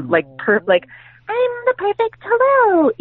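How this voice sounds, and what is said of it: Small, petite girlish voice. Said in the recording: “I do her voice because she's a very small, petite little girl.”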